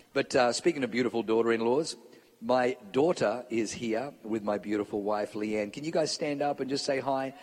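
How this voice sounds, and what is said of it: Australian accent. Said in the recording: “my Australian accent. It's like, Dad, you got to stop saying it like that.”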